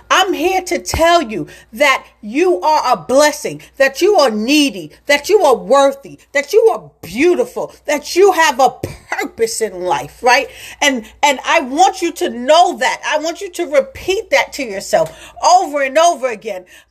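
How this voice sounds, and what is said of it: Loud, passionate speaking. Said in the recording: “My voice is getting loud because the passion that is coming through me right now is unbelievable”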